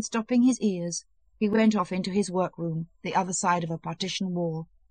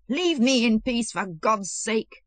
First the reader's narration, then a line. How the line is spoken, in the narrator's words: Mikhailov shrieked with tears in his voice